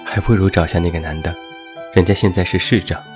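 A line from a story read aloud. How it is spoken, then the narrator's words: Joking. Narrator (Chinese): 我妈开玩笑地说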